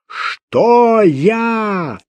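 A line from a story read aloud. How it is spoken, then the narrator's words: Full-lunged roaring shout. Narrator (Russian): Снова во всю мощь легких заорал лев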